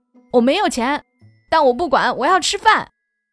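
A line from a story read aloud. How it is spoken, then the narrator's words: Tearful determined shout. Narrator (Chinese): 猪头擦擦眼泪，步伐坚定地 大喊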